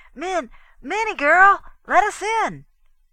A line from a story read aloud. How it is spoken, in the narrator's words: yelled through the door